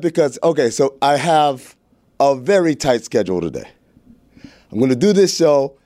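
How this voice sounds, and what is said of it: Out of breath, breathless speech. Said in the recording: “Why are you out of breath? ... I'm out of breath”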